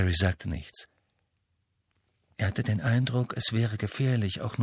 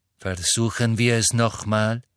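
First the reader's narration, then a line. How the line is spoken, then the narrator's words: Plain. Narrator (German): sagte Snape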